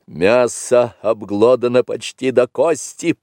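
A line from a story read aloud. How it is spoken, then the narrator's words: Hoarse rasp. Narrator (Russian): прохрипел серый брат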